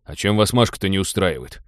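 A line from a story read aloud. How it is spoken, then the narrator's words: Embarrassed grumble. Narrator (Russian): смущенно проворчал Теодор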